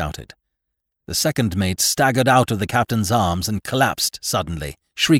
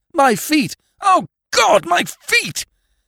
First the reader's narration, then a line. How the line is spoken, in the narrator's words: he kept up a continual moaning